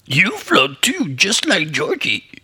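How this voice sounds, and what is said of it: Skarsgård Pennywise impression. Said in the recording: “That's my first ever Pennywise, Skarsgård Pennywise impersonation... That was pretty good.”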